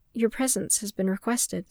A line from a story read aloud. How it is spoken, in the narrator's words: Sabe replied in a dry tone